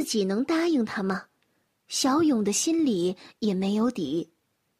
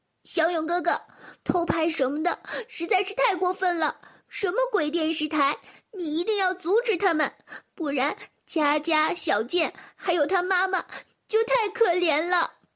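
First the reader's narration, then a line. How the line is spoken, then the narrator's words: Tearful shouting. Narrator (Chinese): 小英带着哭腔嚷道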